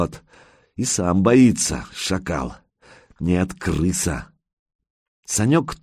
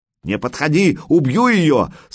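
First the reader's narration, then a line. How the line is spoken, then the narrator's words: Rat's immediate shriek. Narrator (Russian): сразу завопил крысеныш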